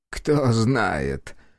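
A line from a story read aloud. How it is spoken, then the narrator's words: Chuckling. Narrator (Russian): хохотнул тот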